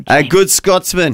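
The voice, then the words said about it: Bad put-on Scottish accent. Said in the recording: “That's a terrible accent. ... There's a terrible Scottish accent.”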